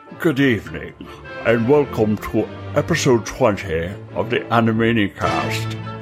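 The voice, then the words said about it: Imitates another person's voice. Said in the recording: “my horrible Alfred Hitchcock impression”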